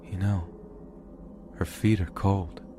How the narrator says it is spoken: in a soft, slow voice he says

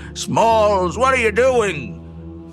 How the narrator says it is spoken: Ham down below shouting

